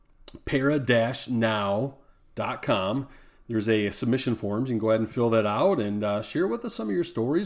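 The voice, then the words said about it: Hoarse, scratchy voice. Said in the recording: “thanks for putting up with my horse and my voice is kind of, I got a little bit of a sore throat”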